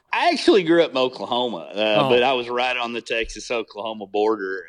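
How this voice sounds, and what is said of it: Texas accent. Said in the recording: “the accent you have to, right? Like that's a Texas accent.”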